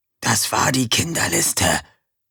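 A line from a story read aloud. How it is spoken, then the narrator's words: Whisper. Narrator (German): flüsterte Erik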